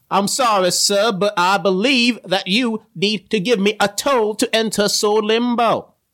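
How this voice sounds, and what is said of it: Put-on British accent, Southern-tinged. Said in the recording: “Is that supposed to be a British accent? ... a little bit harder ... I'm a southern man trying to do a British accent.”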